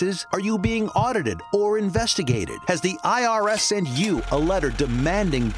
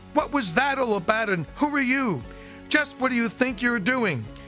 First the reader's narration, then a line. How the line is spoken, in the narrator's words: shouting